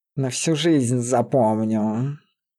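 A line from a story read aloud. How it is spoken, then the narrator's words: Growling. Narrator (Russian): рыкнул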